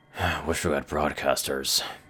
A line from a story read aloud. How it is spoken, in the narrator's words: muttered